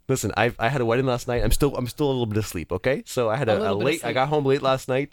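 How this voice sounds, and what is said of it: Slightly rough, hoarse voice. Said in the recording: “why my voice is a little rough this morning”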